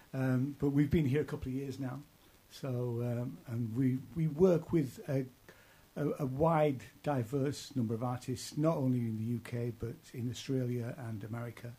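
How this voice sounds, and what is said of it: East Yorkshire English accent. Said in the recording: “Originally it started in East Yorkshire, where I'm from. You can probably tell by my accent.”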